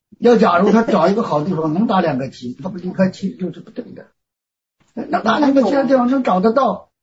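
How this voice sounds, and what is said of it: Strong, hard-to-understand regional accent. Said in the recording (Chinese): “您的说话口音我不太听得懂”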